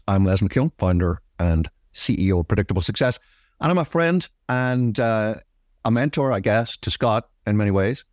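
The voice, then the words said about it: Strange-sounding accent. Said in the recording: “what's with the strange accent?”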